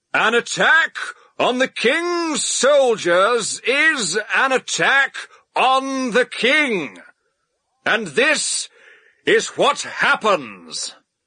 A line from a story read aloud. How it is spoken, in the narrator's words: shouted